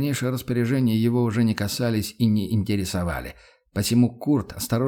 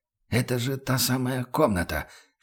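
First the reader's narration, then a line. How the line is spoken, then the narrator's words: Whisper. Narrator (Russian): шепотом выговорил он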